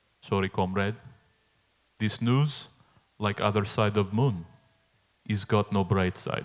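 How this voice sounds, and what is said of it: Put-on foreign accent. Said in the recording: “Gonna share ... accent ... when you started doing the accent”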